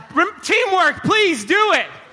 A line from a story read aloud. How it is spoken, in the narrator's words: Taylor shouts